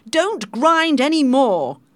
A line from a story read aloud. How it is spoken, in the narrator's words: shouted the captain